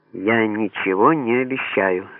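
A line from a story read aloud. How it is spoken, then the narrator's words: Plain. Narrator (Russian): сказала она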